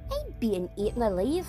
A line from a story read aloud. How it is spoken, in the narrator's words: cried